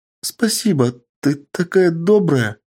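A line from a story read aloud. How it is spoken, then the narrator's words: Whimpering thanks. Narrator (Russian): продолжая хныкать, сказала девушка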